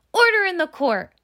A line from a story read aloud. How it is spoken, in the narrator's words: shouted David